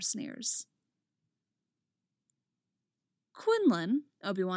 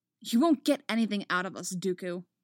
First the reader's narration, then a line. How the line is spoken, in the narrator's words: Anakin snaps